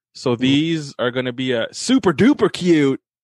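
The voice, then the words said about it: Poor attempt at Midwestern accent. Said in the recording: “If I said that right. ... my bad if that was horrible accent for the Midwest”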